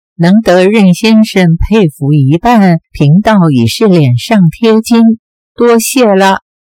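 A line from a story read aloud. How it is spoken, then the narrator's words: Laughing. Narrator (Chinese): 冲虚道人笑道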